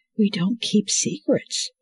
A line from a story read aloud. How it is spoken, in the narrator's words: she whispered to herself, head sinking as tears started to well in her eyes again